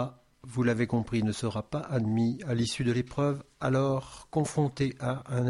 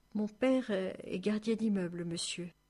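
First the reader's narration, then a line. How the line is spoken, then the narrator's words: Weak voice. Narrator (French): d'une voix faible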